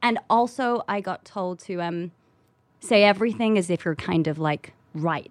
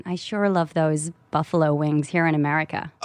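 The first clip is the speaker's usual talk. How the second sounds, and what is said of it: Put-on American accent. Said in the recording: “how's your American accent? ... LA accent. ... Yeah, that's good. ... You're good, you're good.”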